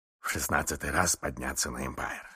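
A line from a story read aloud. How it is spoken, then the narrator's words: Muttering. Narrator (Russian): бормотал мистер Адамс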